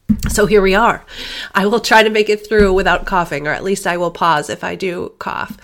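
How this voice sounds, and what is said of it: Congested voice from a cold. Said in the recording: “I have a cold.”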